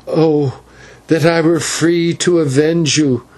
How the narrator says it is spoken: gasped the girl as she strained and tore at the ropes

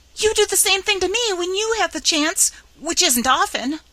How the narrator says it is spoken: sputtered Chatterer

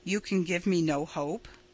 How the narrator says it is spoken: he said

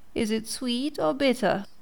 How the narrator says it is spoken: Pinocchio asked in a whining voice

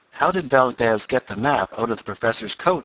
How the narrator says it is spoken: asked Tom

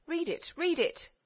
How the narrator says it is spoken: they cried from the opposite side

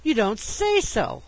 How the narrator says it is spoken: I gasped

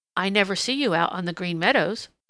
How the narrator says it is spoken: said Peter

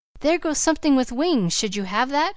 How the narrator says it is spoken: cried Levering

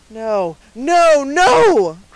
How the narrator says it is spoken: cried the peddler, in a voice and with a manner that startled Dunwoodie

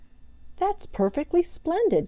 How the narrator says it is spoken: cried Peter

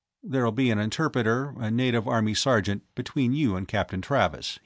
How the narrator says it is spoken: he said

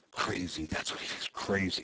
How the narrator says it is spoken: he sputtered

